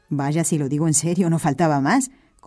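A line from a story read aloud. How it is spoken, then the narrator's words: Plain priest. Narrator (Spanish): contestó el sacerdote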